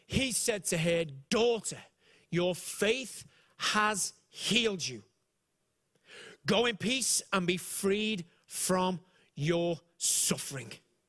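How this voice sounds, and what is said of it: Speaker with a strange accent. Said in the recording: “I have a strange accent”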